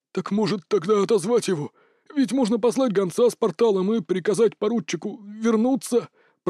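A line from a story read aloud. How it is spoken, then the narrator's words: Hoarse. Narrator (Russian): прохрипел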